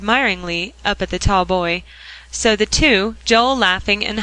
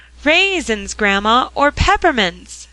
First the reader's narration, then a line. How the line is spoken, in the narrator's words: cried Joel